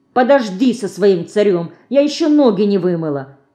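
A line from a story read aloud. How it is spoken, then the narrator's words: Angry interruption. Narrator (Russian): сердито обрывает ее Динка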